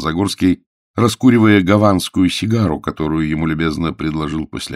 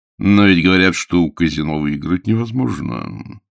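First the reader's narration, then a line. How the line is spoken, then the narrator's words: Pointedly indifferent. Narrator (Russian): сказал он подчеркнуто безразличным тоном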